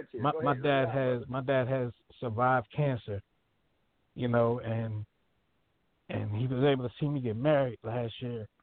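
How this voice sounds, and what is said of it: Emotional, voice choked up. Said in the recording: “I'm getting emotional now thinking about it”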